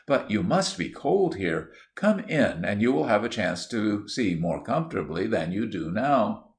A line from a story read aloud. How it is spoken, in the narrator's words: Dinsmore kindly